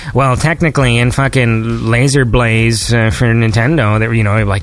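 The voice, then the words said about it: Pedantic nerd voice impression. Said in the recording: “that's a really good nerd impression.”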